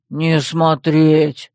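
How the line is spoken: Growled warning. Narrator (Russian): рыкнул он и предупредил

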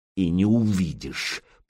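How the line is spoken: Hissed. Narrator (Russian): прошипел Петик

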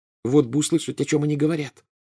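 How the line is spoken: Plain. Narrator (Russian): сказала Гермиона

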